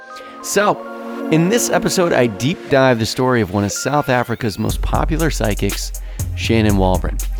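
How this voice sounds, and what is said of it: Sick-sounding, unwell voice. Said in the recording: “Excuse my voice, I've come down with something... it's a plague of some sort”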